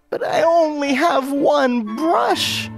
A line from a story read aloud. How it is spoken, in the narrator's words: wailed Sotaria